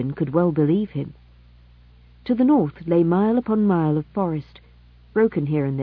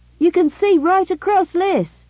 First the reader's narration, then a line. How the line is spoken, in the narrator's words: said, raising his voice so that it could be heard above the thunder of the waterfall